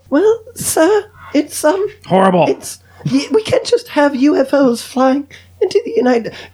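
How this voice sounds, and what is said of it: Poorly kept British female accent. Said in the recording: “I just wanted a British female accent. I can't keep accents for shit. ... I suck with maintaining fucking accents. ... Not good with accents at all.”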